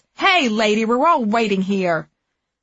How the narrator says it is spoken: people tutted loudly and yelled

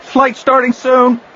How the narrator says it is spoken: cried a little lump of a boy, even younger than Anakin

